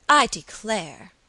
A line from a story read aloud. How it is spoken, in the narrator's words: said Alicia, impatiently